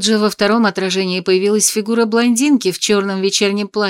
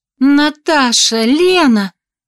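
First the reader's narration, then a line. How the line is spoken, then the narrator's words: Amazed exclamation. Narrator (Russian): с изумлением воскликнула она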